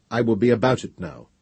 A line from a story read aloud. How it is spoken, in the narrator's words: said Gendebal firmly